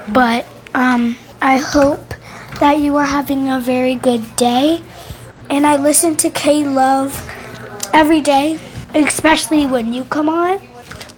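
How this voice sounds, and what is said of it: Slightly cracky voice. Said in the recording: “my voice is a little cracky because I have a little cough”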